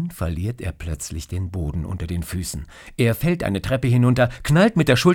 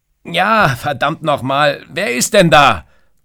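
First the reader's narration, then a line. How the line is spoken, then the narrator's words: Shouting. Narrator (German): schreit er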